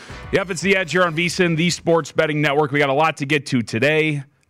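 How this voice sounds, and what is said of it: Raspy voice. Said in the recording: “Ooh, that sounded raspy, huh? I shouldn't have had my coffee yet.”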